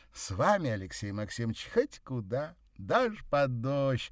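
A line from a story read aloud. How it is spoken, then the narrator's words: Giddy laughter. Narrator (Russian): рассмеялась она, почувствовав необыкновенную пьянящую легкость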